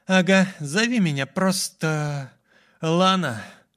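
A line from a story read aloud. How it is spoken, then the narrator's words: Tired young woman. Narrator (Russian): устало произнесла девушка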